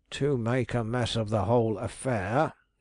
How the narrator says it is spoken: he growled

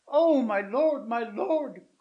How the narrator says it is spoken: cried she

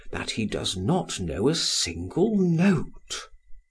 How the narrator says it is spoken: said he, whispering

